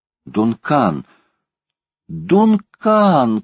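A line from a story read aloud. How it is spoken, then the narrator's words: Desperate shout. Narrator (Russian): крикнул Паганель в отчаянии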